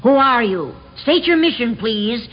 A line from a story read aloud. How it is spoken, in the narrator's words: Milord Will shouted